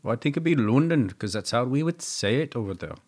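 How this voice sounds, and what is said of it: Put-on Indian or Pakistani accent. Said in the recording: “Did you just do that with an Indian accent? ... I think it went Indian. ... Almost like Pakistani. ... You and your accent.”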